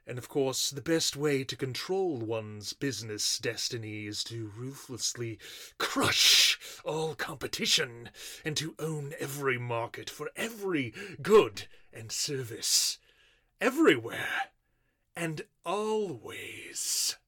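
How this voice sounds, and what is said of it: British-sounding accent. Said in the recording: “I love your accent ... I would think living in the U.S. for so long, you might have lost it ... U.K. accent”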